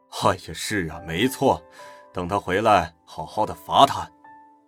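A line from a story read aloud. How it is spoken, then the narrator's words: Laughing agreement. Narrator (Chinese): 乔元斌笑着附和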